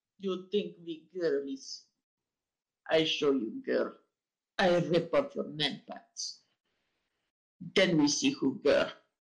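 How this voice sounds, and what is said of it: Put-on Russian-sounding accent. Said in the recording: “you also do Russian accent when talking about dismembering men. It is good accent for such actions ... I was trying for a Boston accent”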